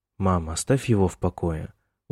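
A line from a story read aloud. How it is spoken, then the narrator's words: Weary. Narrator (Russian): устало сказал Майкл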